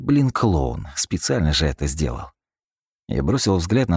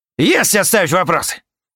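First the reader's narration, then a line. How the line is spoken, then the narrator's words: Very loud bark. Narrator (Russian): рявкнул Юра, да так, что обернулись все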